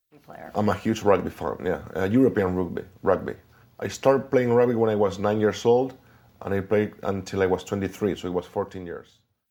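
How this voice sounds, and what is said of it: Spanish accent speaking English. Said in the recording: “This one was an example of the Spanish accent when speaking English. This was taken from an interview with the great Javier Bardem”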